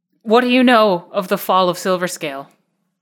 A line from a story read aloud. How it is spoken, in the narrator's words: she just suddenly, like, almost interrupting the queen, just blurts out